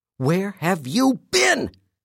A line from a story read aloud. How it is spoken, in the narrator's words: she screamed